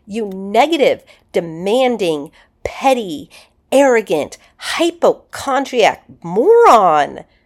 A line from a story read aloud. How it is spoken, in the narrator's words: he shouted at the mirror